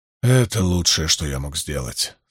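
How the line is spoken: Relieved, sighing. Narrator (Russian): сказал он с облегчением, вздохнув

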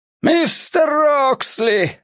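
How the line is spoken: Shouting. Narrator (Russian): снова прокричал преподобный Енох Феннинг

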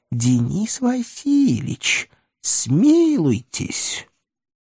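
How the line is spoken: Pitiful squeaky half-whisper behind. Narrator (Russian): за спиной жалостливым полушепотом пропищало

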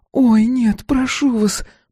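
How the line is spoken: Moan. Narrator (Russian): простонала миссис Элфик

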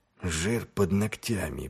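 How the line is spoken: Muttering. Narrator (Russian): пробормотал Ваймс

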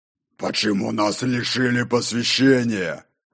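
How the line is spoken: Near growl, stocky man. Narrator (Russian): Почти прорычал мастер камней, рыжебородый и коренастый

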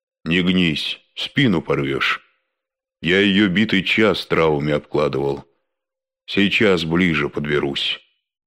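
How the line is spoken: Deep bass voice. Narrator (Russian): пробасил Верзила

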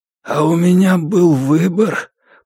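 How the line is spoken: Hoarse croak. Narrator (Russian): прохрипел он

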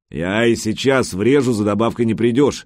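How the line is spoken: Good-natured grumble. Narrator (Russian): благодушно проворчал Гучко

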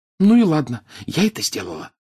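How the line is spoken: Whisper. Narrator (Russian): прошептала она

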